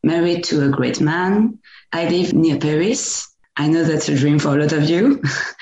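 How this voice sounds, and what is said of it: French-accented English. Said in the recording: “I live in France. Sorry for my accent.”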